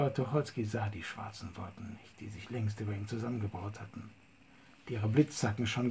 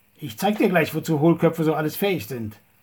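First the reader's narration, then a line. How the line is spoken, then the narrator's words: Bellowing at full voice. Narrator (German): brüllte sein Gegenüber aus vollem Halse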